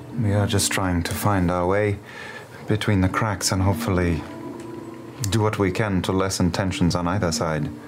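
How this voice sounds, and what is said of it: Zemnian accent. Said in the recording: “I have a Zemnian accent”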